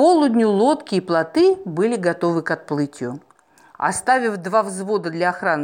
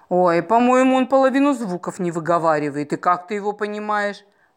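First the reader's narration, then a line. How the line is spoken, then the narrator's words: Laughing. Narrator (Russian): Маруся засмеялась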